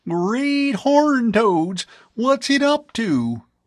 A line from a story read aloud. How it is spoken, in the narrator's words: Chow exclaimed